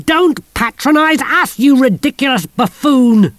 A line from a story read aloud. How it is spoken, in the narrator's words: she screamed